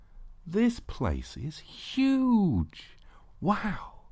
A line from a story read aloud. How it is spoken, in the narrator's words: exclaimed with a deep breath